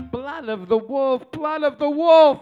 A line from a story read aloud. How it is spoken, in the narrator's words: Sicilian serious, and she'd moan in broken English